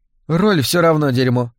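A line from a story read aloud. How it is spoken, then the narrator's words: Cold statement. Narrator (Russian): холодно констатировала Дебби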